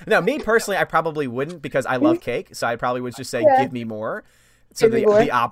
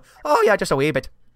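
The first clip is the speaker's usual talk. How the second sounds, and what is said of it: Deliberately bad put-on Irish accent. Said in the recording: “put on my really, what I'm sure is to Irish ears, an atrocious Irish accent”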